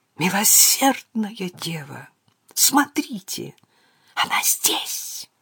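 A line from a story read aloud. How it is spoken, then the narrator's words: Whisper. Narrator (Russian): прошептал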